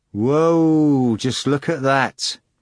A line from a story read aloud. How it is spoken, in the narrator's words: Rising in his seat, one of them could be heard shouting